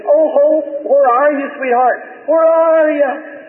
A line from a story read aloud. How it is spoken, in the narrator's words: I began to scream